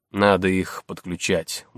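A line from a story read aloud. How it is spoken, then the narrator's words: Grumbled. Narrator (Russian): буркнул Золотых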